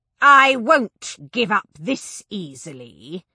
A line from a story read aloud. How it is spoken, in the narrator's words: snarled